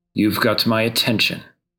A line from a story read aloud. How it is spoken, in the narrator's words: he says